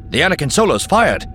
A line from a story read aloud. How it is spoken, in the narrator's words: one of the sensor scan operators snapped